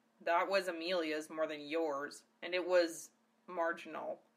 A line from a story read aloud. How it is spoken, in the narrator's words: grumbled Zell